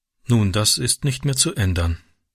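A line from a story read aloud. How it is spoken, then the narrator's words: Sad. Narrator (German): sagte sie traurig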